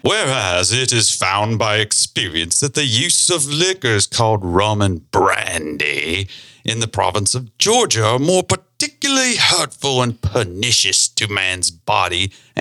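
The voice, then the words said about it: Regal kingly reading voice. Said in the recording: “in my kingly voice, ... as if he had said this”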